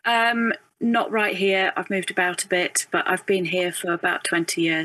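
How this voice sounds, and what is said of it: Lovely northern English accent. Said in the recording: “you've got the lovely accent ... I grew up in in the north of England”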